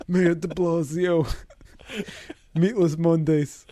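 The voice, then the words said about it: Exaggerated New York mayor voice. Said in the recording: “your de Blasio impression ... This is the all New York mayor voice.”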